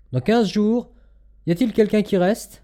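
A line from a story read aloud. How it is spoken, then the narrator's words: Several voices exclaiming. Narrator (French): plusieurs voix s'écrièrent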